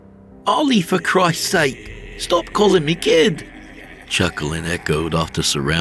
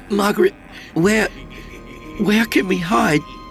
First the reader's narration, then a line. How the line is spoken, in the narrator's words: I croaked